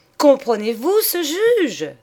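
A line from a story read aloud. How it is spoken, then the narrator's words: Exclamation. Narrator (French): s'écria-t-elle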